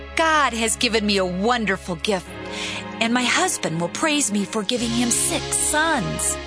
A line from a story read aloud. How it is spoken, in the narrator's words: When Leah had another son, she exclaimed